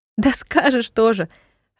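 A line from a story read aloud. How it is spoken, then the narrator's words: Laughing. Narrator (Russian): рассмеялась Ева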